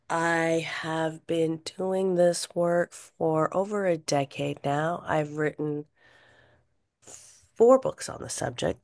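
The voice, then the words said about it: Hoarse, strained voice. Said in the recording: “my voice is a little thrashed from the fires and everything that's been happening in the air quality in LA”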